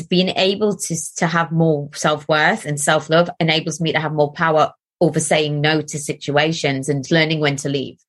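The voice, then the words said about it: Soft Geordie accent. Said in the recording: “you have my favourite accent in the whole of the world ... are you called a Geordie? ... sound more Geordie ... it's a bit softer”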